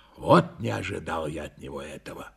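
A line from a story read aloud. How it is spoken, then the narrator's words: Panting grumble. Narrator (Russian): Тяжело дыша, проворчал я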